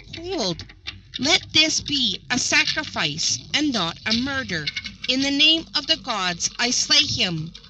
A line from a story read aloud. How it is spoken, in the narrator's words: Kaualioku stayed every uplifted hand by exclaiming